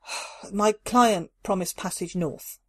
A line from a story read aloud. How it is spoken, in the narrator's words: Carla sighed